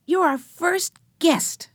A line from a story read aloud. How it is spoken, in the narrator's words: shouted Benny with delight